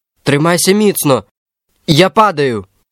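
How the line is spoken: Shout. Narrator (Ukrainian): крикнув він

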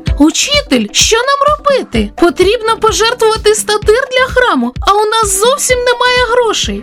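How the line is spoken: Exclaiming. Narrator (Ukrainian): вигукнув Петро

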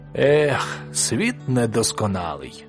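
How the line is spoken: Sighing fox. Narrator (Ukrainian): зітхнув лис

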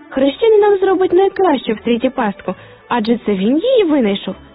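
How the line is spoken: Exclaiming. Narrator (Ukrainian): вигукнув Фріц

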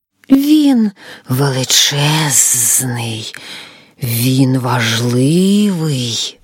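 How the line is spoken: Hissing. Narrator (Ukrainian): Змія прошипіла

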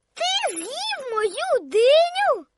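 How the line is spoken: Disappointed shout. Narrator (Ukrainian): закричала Коко розчаровано

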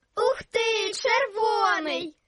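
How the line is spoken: Children shouting joyfully. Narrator (Ukrainian): радісно закричали діти

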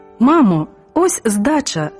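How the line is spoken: Cheerful call. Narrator (Ukrainian): гукнув весело

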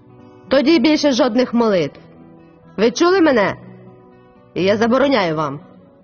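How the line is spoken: Thundering, terrifying voice. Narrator (Ukrainian): Він знову прогримів таким страшним голосом

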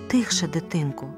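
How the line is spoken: Whispering. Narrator (Ukrainian): прошепотіла карлиця

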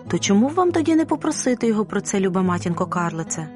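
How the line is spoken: Plain. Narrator (Ukrainian): сказала Розалія

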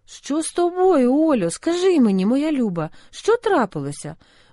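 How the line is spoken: Worried exclamation. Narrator (Ukrainian): вигукнула стурбована Саша

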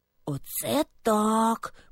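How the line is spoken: Whisper. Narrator (Ukrainian): прошепотів Льоня

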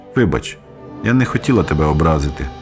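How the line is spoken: Gentle, after a pause. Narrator (Ukrainian): лагідно промовила після хвилинного мовчання

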